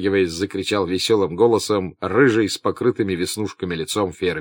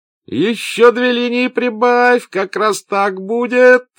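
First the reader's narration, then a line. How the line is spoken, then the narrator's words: Thin voice feigning bravado. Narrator (Russian): закричал тоненьким голоском, которому он старался придать молодцеватость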